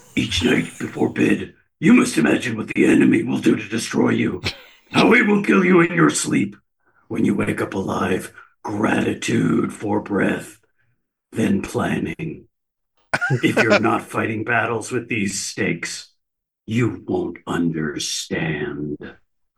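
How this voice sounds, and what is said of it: Bad Batman-style character voice. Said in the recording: “in my best Frank Castle voice, which is really just a bad Batman voice”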